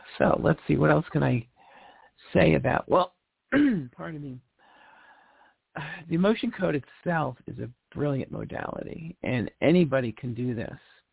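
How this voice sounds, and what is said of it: Strained, failing hoarse voice. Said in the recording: “I'm losing my voice.”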